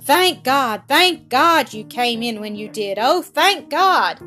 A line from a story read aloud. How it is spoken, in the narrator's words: suddenly he cried